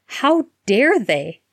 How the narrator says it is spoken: Harry cried fiercely

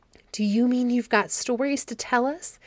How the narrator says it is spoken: exclaimed the children eagerly

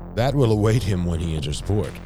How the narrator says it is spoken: he said, chuckling

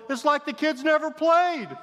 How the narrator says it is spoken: The visiting coach yelled

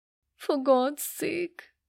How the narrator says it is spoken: cried, already in tears

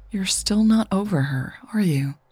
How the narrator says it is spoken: Kim asked, her voice softer

